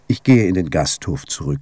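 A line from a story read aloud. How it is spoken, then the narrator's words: Calm male voice. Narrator (German): sagte der Priester ruhig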